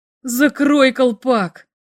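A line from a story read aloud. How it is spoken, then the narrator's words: Groaning. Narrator (Russian): простонал Бато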